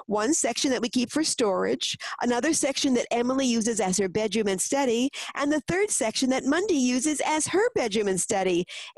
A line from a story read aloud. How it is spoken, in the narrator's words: Edward replied excitedly